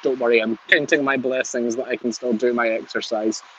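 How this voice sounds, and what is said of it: Lovely neat regional accent. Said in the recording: “What a lovely, neat accent that was.”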